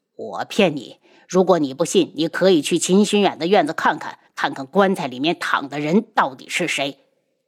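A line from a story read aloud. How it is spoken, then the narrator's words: Cold. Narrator (Chinese): 轩辕志冷声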